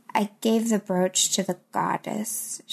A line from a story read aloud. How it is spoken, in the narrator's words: she mumbled